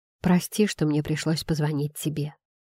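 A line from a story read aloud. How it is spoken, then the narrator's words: Ashamed whisper. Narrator (Russian): прошептал я, испытывая стыд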